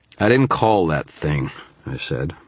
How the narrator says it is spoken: my voice slurred with fatigue

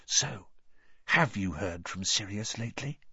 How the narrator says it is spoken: Then he said very quietly to Harry

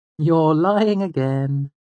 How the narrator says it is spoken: said cheerfully

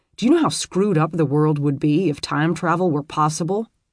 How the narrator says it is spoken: Robert grunted

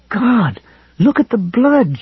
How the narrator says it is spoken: she cried in a choked voice

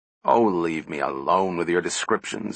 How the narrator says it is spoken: grumbled Powell

